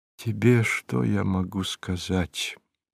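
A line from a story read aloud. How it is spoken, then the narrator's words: Quiet speech. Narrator (Russian): тихо заговорил Порфирий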